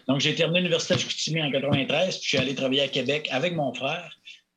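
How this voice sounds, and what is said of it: Saguenay Quebec French accent. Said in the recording (French): “j'ai un accent du Saguenay”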